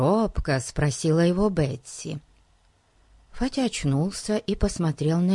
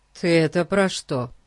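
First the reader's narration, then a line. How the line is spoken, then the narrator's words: Plain question. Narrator (Russian): спросил, наконец, Ларри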